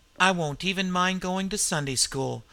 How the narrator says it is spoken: he added softly

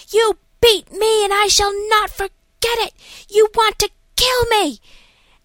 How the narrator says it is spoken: another screaming at some nurse saying

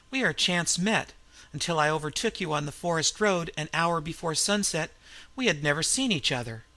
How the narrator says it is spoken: laughed the Frenchman

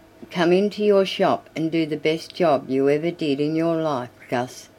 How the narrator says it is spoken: said Marshall

